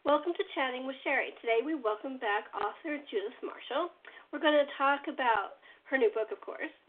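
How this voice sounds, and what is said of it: Slightly strained, hoarse voice. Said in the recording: “my throat's a little out”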